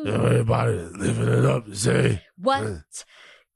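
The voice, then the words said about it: Good imitation of another person's voice. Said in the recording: “That's actually a really good impression... That's Ja.”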